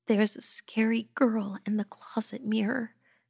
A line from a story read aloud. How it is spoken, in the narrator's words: whimpered